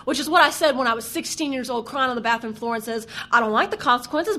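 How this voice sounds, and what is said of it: Strong Southern American accent. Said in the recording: “my accent's coming out really bad, isn't it? I don't even think I sound this Southern when I'm in the South.”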